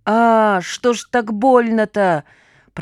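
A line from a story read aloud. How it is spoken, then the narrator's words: Moaning. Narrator (Russian): простонал Салям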